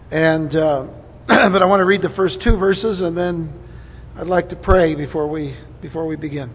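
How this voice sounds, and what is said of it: Hoarse, strained voice. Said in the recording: “losing my voice a little bit ... I'm going to do my best to speak as loud as I can”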